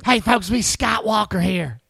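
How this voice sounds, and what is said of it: Imitates another person's voice. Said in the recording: “That just sounds like your impersonation of Tony reading something that you wrote saying to Scott Walker.”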